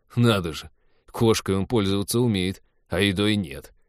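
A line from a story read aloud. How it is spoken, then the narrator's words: Wry snort. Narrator (Russian): хмыкнул Тед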